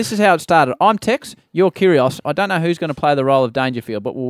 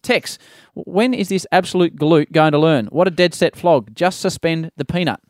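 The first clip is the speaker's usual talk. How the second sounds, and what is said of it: Put-on curious accent. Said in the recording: “Trying to put a bit of a ... that was a curious ... Accent.”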